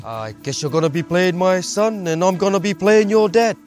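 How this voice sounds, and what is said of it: Spot-on impression of Temuera. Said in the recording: “he does that impression of him, which is so spot on”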